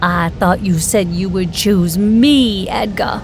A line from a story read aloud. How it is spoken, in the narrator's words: shouted, the howling winds overwhelming the sphere of sound